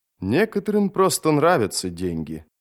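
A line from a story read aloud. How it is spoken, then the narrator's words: Calm. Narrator (Russian): спокойно сказал Джот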